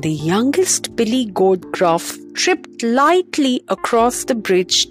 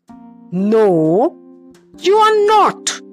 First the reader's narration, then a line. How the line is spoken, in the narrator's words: roared the troll